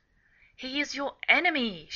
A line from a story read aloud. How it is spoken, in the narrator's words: she exclaimed